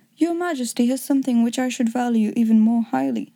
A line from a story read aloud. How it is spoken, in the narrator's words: said Holmes